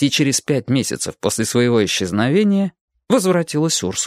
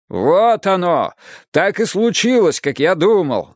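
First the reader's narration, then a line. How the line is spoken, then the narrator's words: Shouting. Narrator (Russian): закричал он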